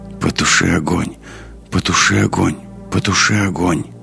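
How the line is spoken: Strange muttering voice. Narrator (Russian): странный голос, бормочущий

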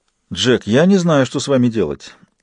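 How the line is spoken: Sighing. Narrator (Russian): вздохнула Лесток

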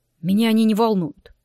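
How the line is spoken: Grumbled. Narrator (Russian): буркнул Влад

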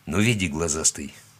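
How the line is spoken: Mutter. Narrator (Russian): пробормотал Яков

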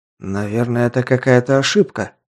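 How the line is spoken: Muttered. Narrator (Russian): пробормотал

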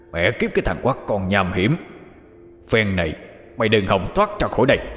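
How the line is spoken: Vulgar growl. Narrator (Vietnamese): Hắc Cẩu gầm gừ văn tục

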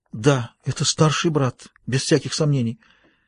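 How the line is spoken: Strained, shaken voice. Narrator (Russian): Женщина, содрогнувшись, сдавленным голосом сказала

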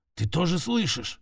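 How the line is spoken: Hoarse question. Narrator (Russian): спросил он с хрипом

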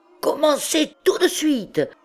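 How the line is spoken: Schoolboy yelping. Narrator (French): glapissait l'écolier

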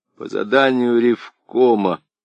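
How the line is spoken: Forced out with difficulty. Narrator (Russian): с трудом выдавил из себя Валерий

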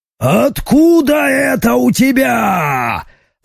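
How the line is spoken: Yelling, massive figure. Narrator (Russian): заорала массивная фигура

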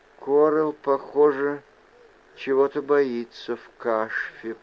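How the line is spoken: Whispering. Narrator (Russian): прошептала Вайл

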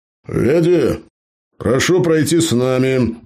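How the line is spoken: Loud barking shout. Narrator (Russian): Гаркнул Джо, чтобы перекричать старушку

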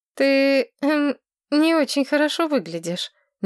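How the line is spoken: Uncertain. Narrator (Russian): неуверенно сказала Маргарет

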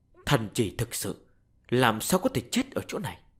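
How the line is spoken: Grave mutter. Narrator (Vietnamese): Sắc mặt của hắn nghiêm trọng, lẩm bẩm nói

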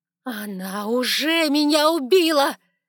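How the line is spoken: Screaming in face. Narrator (Russian): закричала я ему в лицо

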